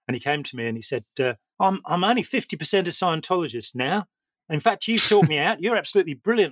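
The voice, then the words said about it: Put-on Australian accent. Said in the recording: “I was actually criticized by Australian viewers for not using an Australian accent, which is why I'm doing it now. ... That's pretty good.”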